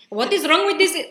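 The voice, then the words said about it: Bad put-on Arab accent. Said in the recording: “Wait, that was a bad accent.”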